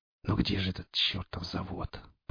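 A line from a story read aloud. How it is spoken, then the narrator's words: Whispered. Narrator (Russian): прошептал сталкер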